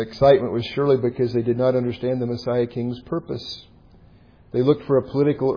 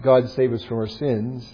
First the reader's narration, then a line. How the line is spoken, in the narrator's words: sadly